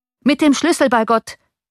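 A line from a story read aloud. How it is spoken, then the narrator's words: Coachman calling out. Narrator (German): rief der Kutscher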